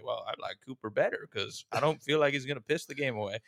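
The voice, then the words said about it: Poor imitation of another person's voice. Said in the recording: “you're really poor in mimicking me because that is a terrible, terrible impersonation”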